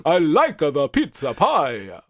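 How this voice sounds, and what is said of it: Bad put-on Italian accent. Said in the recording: “I can only do like a really bad Italian accent.”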